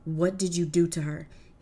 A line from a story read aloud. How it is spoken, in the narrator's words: He yelled at Perseus